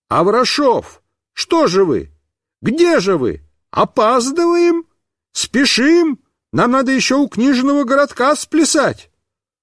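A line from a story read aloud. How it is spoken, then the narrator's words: Clown shouting. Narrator (Russian): какой-то клоун закричал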